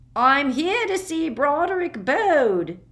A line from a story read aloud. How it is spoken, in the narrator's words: he wheezed